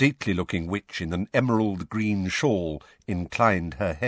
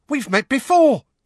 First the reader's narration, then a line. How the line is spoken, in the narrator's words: squeaked the excitable Diggle